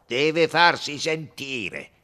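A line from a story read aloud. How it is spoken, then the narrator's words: Loud nasal voice. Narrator (Italian): diceva con voce alta e nasale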